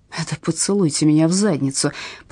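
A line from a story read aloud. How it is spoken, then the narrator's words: Mutter. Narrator (Russian): пробормотал Опедал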